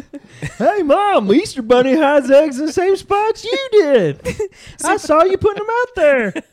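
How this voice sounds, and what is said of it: Put-on childlike hillbilly accent. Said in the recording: “You had such a funny accent as a kid ... just a hillbilly”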